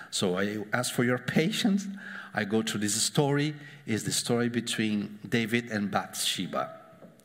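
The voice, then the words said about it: Foreign-accented English. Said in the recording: “coming from a guy with your accent ... It's like my accent, Antonio Banderas ... the same accent”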